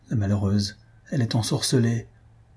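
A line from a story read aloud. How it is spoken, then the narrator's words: Low voice. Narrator (French): dit Albina à voix basse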